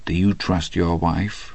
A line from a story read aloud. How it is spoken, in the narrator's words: he said very softly to Hadley